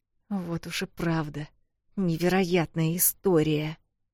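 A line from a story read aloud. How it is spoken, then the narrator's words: Through gritted teeth. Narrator (Russian): Сквозь зубы процедила Эл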